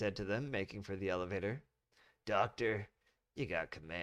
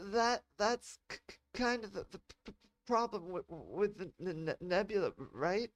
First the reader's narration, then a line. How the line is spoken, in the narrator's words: Kat stuttered